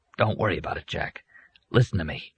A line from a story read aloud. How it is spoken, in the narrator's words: Arnie whispered